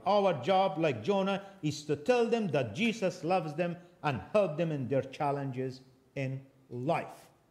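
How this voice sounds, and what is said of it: Non-native English accent. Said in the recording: “I recognize I do have accent in English. That's obvious ... you have a funny English.”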